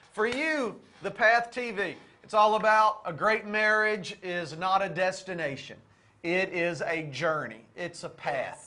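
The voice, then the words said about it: Southern US accent. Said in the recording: “this accent is kind of Louisiana, Arkansas, Texas. I know we got a little hick in us.”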